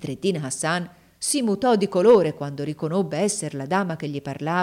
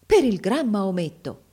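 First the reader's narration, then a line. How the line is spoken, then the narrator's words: Exclaimed. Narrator (Italian): esclamò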